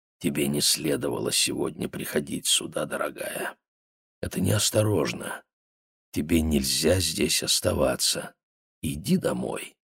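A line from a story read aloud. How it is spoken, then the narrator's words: Whisper in ear. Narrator (Russian): прошептал ей в ухо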